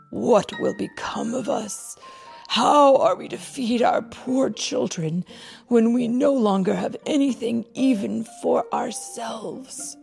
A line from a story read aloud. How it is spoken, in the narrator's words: the woodcutter sighed heavily and said to his wife